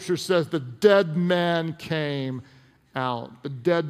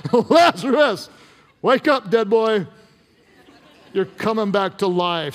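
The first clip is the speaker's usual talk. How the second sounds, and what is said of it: Shouting in a loud voice. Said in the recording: “he called out in a loud voice... Why do you say this in a loud voice?”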